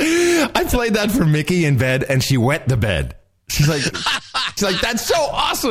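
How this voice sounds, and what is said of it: Usual voice. Nothing is said of it.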